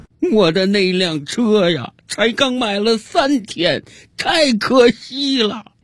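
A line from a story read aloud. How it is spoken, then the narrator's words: Drunk, hysterical sobbing. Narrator (Chinese): 这个喝了一整瓶白兰地的家伙又开始歇斯底里的大哭起来，一边哭他一边嚷嚷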